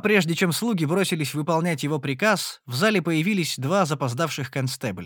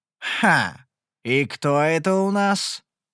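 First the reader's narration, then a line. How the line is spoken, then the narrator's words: Ominous voice. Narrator (Russian): поинтересовался король зловещим голосом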